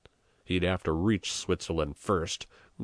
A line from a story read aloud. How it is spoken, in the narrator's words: growled Peppone threateningly